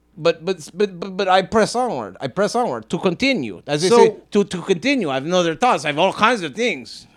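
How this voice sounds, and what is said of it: Accent that keeps changing. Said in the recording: “why does your accent change, like, every 10 seconds?”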